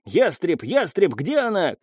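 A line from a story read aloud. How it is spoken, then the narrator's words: Shouting into ear. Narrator (Russian): кричал в ухо Сэмсон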